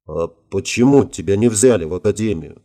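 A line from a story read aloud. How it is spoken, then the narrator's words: Quiet question. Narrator (Russian): тихо спросил Марк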